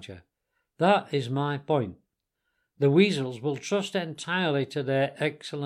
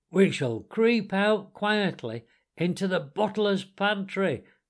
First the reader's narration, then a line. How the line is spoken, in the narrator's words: cried the mole